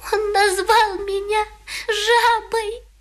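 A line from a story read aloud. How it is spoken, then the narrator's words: Sobbing. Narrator (Russian): рыдала она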